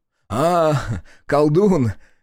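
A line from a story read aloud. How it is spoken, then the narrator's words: Short laugh. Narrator (Russian): хохотнул городской агроном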